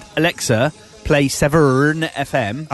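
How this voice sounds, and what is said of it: Put-on Gloucester accent. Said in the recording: “I tried saying it in Gloucester accent”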